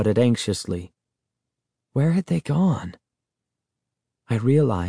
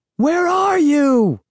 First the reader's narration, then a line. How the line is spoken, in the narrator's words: I shouted